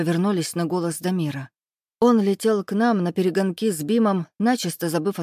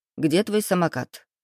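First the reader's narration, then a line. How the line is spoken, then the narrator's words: Stern question. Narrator (Russian): строго спросил Глеб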